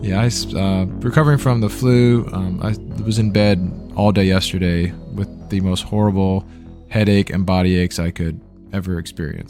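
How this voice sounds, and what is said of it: Slightly raspy, sick voice. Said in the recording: “He's sick and like just struggling to survive right now ... my voice is a little rasped too”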